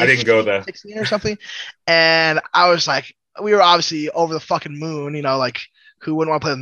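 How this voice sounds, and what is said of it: Usual voice. Nothing is said of it.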